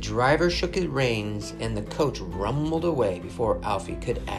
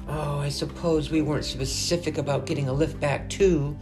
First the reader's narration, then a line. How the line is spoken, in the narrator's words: groaned Alfie